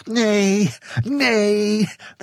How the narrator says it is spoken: they cried eagerly

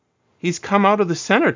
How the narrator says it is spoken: Tom exclaimed

